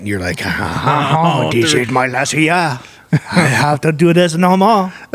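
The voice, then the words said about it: Put-on French accent. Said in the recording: “That's the best French accent you've done all week, because you've gone hard Irish the whole time.”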